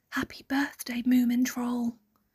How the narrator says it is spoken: he whispered to himself

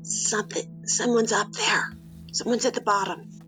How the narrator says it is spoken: She whispers as quietly as she can

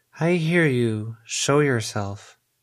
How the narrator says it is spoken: in a complete other voice that actually matched Edith's in cadence and confidence, she said

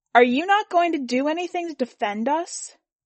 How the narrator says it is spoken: One of the gringos at the foot of the stage was shouting in English

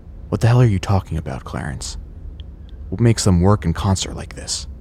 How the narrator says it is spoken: He sighs, exasperated with my stupidity

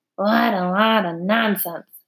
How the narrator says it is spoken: muttered

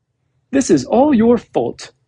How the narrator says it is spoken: shouted angrily

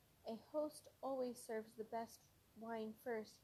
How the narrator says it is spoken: he said

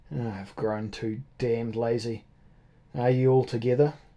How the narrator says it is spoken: The O'Dowd grumbled to himself

